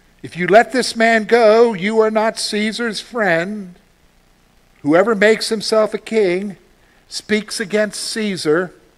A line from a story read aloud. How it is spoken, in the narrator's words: the Jews cried out, saying